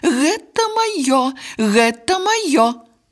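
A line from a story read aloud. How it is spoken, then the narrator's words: Prolonged shouting. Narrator (Russian): Яна кричала так долго, что все птушки почули яе голос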